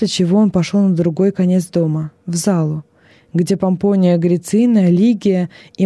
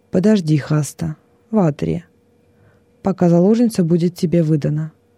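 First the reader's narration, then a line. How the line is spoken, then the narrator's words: Calm. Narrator (Russian): уже спокойно сказал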